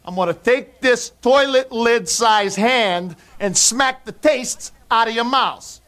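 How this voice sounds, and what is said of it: Speaks with a distinctive accent. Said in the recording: “I just love the accent. It's a guilty pleasure when he starts that shit.”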